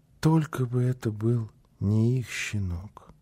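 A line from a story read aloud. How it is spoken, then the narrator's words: Child whispering. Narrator (Russian): Малыш шептал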